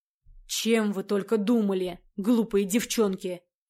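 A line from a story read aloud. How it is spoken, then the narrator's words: Hissed by teacher. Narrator (Russian): Прошипел преподаватель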